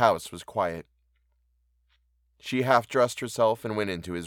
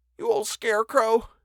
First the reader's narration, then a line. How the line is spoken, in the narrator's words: whimpered